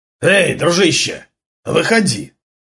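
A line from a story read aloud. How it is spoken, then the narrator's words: Hoarse shout, man. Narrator (Russian): хрипло выкрикнул мужчина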